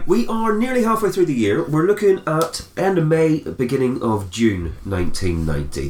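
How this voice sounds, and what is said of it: Congested, snotty voice from a cold. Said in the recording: “I've got a little bit of a cold, so I'm probably going to be sounding quite snotty throughout this podcast.”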